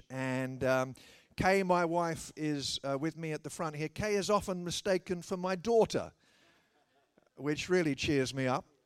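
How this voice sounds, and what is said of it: Slight tinge of an accent. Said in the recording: “the slightest tinge of an accent when I open my mouth”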